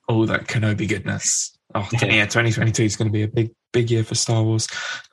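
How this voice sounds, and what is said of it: Croaky, strained voice. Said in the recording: “the state of my voice ... It's just decided to go really croaky as if I'm about to lose it.”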